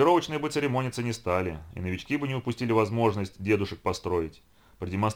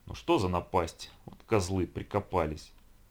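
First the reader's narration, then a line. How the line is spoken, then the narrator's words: Grumbling. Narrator (Russian): ворчал юрист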